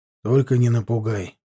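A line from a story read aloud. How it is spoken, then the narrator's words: Tired. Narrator (Russian): устало сказал он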